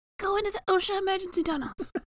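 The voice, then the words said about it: Briefly speaks with a put-on accent. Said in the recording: “I don't know why I had an accent there.”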